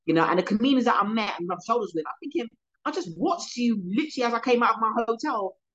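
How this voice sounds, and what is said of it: London English accent. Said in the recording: “you're in your accent ... I'm from London”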